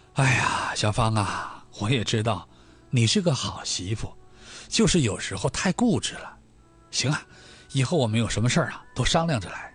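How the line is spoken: Sighing, softened anger. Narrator (Chinese): 张桂兰心里的气儿啊也消了大半了，她叹了口气说道

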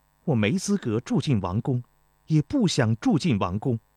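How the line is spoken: Cold refusal. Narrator (Chinese): 钟离秋冷冷地回绝道

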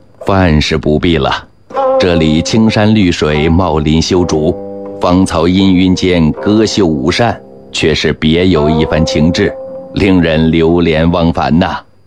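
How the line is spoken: Said laughing. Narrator (Chinese): 刘统勋就笑着说了

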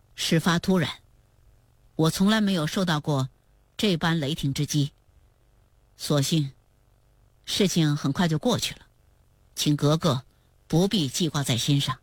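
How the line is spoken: Calm, detached. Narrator (Chinese): 多尔衮 便淡淡地说

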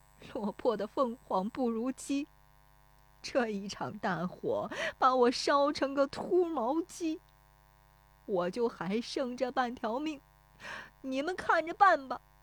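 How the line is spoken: Crying. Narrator (Chinese): 石有福 对着烧塌的房子哭说

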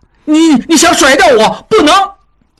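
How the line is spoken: Shouting. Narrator (Chinese): 小栓被落下，大叫道

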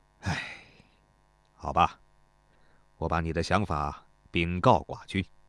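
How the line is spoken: Sighing. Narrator (Chinese): 始皇大夫 叹道

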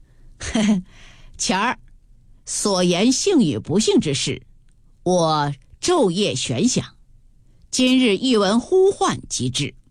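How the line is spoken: Laughing. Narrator (Chinese): 宝玉……笑道

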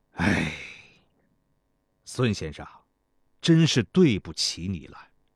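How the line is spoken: Long sigh. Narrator (Chinese): 天际长叹一声，对孙膑道

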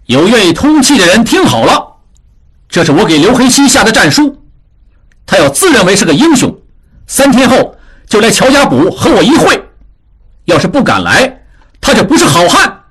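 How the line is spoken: Loud. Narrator (Chinese): 智庸对着一群围过来的闲人大声说

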